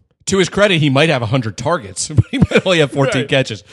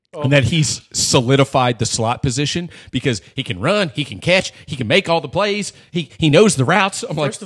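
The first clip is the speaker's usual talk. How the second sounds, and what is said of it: Jay Gruden impression, West Virginia accent. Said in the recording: “Have a West Virginia accent. ... this is my best Jay Gruden”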